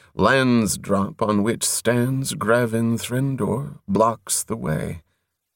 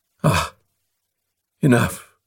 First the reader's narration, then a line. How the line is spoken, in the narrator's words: Foam Follower sighed abruptly